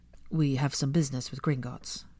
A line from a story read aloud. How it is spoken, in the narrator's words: the latter said, in an impressively even tone for someone with such sweaty palms